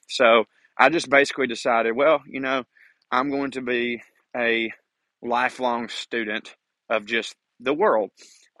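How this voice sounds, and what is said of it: Speaker's own regional accent. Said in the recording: “somebody with my accent”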